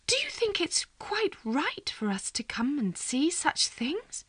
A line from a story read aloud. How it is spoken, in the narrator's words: I heard Miss Mattie whisper